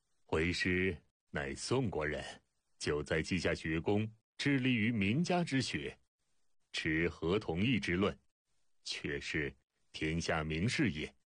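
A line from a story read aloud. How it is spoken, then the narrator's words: Smiling reply. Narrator (Chinese): 孟子微笑答道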